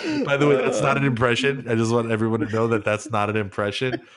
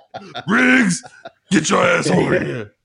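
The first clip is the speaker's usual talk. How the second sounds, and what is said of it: Imitates another person's voice. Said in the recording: “an impression of Rob McElhenney doing an impression of Danny Glover”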